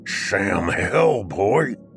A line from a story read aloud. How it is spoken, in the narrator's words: growled